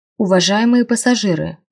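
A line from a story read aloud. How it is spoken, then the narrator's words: Magically amplified voice. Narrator (Russian): магически усиленным голосом сказал он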